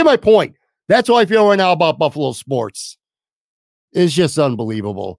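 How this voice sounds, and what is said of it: Usual voice. Nothing is said of it.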